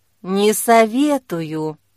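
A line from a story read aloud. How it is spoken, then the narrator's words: Bitter sigh, then speaking. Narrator (Russian): Но тут он горько вздохнул и сказал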